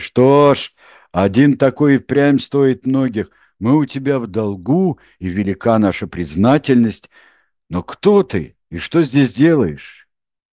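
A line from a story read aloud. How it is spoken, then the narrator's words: Laughing men speaking. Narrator (Russian): Расхохотались люди Бретеля и молвили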